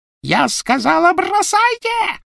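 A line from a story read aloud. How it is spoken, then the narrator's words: Shrieking. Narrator (Russian): провизжала Беллатриса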